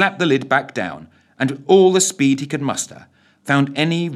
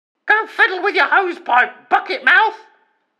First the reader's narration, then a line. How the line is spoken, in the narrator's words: came back the screech reply